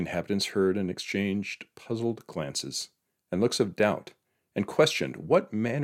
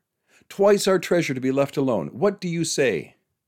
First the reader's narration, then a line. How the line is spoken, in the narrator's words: the crier called out